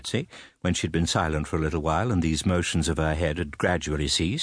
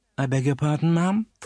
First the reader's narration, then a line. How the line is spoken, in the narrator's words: faltered my mother